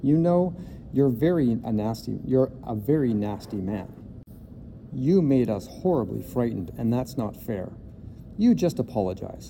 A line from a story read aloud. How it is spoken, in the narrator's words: Lindy said in an angry voice